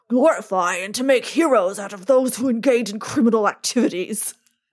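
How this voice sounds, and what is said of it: Richard Nixon impression. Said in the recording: “my Nixon impression ... that's Nixon ... you did amazing”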